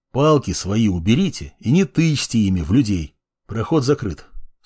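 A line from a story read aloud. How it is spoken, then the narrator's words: Calm male voice. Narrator (Russian): спокойно сказал мужчина передо мной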